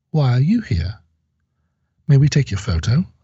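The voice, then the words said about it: Poor put-on British accent. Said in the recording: “I'm doing terrible British accents today. British accents. ... I can do British accents better than this.”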